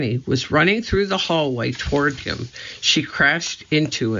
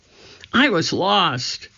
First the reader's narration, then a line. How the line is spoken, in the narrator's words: she cried